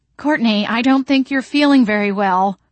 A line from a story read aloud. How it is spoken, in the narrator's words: Toady Courtney said loudly, her brown eyes wide with alarm